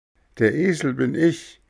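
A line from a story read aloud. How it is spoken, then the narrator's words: Cheerful laughing. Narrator (German): lachte vergnügt der Hampelmann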